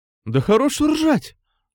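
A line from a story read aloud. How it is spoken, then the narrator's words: Exclaimed. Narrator (Russian): воскликнул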